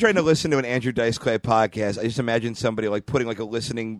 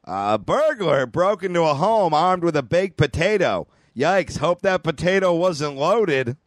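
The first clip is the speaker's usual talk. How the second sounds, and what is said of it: Imitates another person's voice. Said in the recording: “This is my impression of a Tom joke.”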